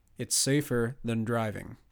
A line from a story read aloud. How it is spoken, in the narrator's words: Cardiff said